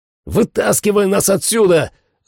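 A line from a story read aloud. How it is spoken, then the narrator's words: Yelled. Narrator (Russian): заорал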